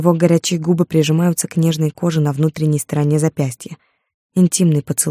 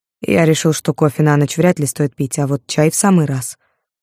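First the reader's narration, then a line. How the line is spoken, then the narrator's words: Calm explanation. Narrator (Russian): спокойно пояснил Борис Львович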